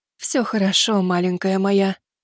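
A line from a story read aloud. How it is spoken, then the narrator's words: Tearful whisper. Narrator (Russian): прошептала Камигами Ноотоми, всеми силами сдерживая слезы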